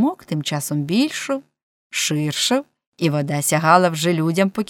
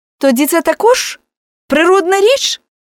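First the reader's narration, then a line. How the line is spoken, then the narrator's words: Cried out. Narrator (Ukrainian): скрикнула Леонсія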